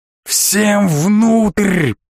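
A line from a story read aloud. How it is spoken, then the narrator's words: Roaring from behind. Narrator (Russian): проревел чей-то голос за моей спиной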